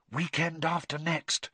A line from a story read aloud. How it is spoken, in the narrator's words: whispered Hermione